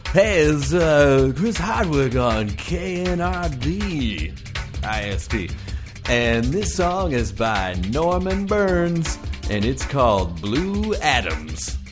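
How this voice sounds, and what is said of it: Funny radio DJ voice. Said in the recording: “should I do this like radio style? ... I'm doing a funny voice”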